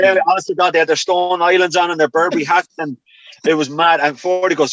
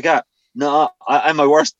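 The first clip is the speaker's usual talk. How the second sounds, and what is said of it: Put-on Irish accent. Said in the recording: “like in an Irish accent.”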